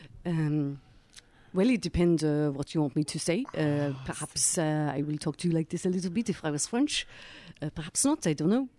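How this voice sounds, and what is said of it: Put-on French accent. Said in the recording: “A French accent ... I've never done a French accent before ... give us a bit of the French ... I think that's pretty good”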